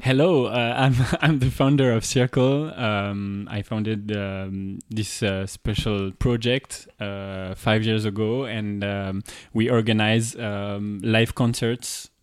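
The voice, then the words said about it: French accent speaking English. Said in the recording (French): “j'ai un bon petit accent et d'ailleurs, je euh, j'ai reçois souvent des moqueries”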